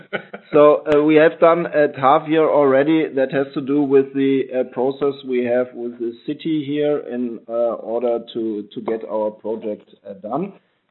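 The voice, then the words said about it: Weak, fading voice from a cold. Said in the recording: “my voice is disappearing today a bit due to a cold”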